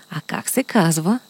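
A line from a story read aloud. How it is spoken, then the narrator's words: Quiet whisper in ear. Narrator (Bulgarian): тихо го попитаха на ухо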